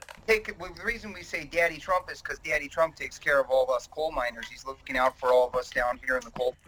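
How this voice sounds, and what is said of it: Pennsylvania Dutch accent. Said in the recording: “a pretty clear Pennsylvania accent coming through over here ... it's more like Pennsylvania Dutch accent”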